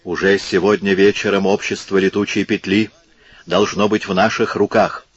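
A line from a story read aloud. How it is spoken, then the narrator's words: Passionate whisper. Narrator (Russian): страстно прошептала графиня Генуэзская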